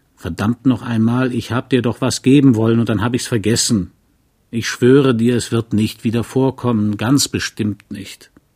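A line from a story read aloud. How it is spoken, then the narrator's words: Blustering. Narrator (German): Und er polterte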